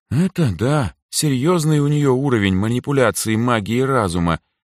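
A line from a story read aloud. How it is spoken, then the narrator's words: Envious sigh. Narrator (Russian): с завистью в голосе вздохнула Эльза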